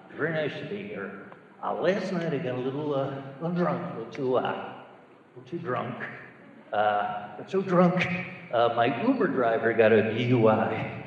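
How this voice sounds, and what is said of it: Johnny Carson impression. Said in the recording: “let me do a impression of Johnny Carson if he was still doing the monologue today. Johnny Carson, still doing the monologue today.”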